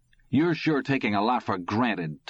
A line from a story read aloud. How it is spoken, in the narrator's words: Todd said hotly